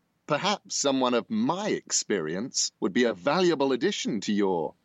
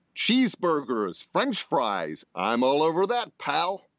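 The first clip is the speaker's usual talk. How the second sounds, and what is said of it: Put-on American accent. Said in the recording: “lose the British accent ... in an American accent”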